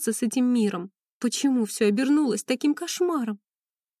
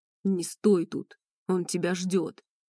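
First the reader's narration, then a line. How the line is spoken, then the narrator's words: Deep male voice, close. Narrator (Russian): пробасил мне над ухом мужчина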